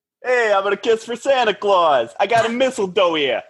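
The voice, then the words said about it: New Jersey accent as Vinny. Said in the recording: “That was a good Vinny ... I'm really good at having that New Jersey area of Los Angeles accent”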